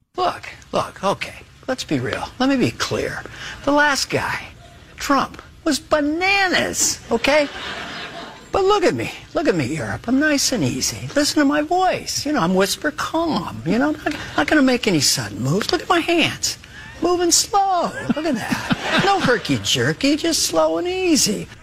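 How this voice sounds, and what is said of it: Joe Biden impression. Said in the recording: “Dana Carvey's Joe Biden”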